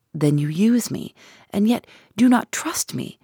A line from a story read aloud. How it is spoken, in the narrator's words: I cried with some bitterness